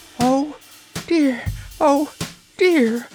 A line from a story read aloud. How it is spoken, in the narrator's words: she wailed, wringing her hands in fear